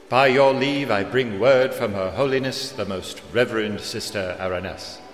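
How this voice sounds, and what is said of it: Stiff, formal voice. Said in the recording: “in an equally stiff voice”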